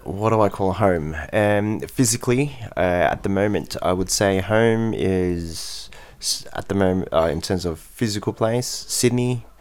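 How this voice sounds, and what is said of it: Australian accent. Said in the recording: “your accent ... it's Australian accent.”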